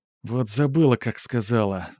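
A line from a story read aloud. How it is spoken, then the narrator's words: Sighed. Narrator (Russian): вздохнула Верка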